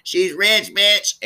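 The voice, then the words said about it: Imitates another person's voice, not well. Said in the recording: “my Nene Leakes impersonation. ... It wasn't that great”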